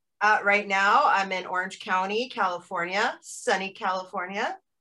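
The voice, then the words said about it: American accent. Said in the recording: “You're over in the US. I can tell from your accent.”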